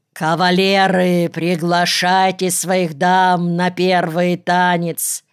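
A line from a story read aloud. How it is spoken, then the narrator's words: Loud bark filling hall. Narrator (Russian): неожиданным для своей миниатюрной фигурки, громким голосом рявкнул на весь зал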